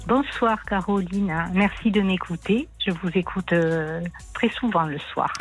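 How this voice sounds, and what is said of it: Slight southern French accent. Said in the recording (French): “Vous avez un petit accent du sud.”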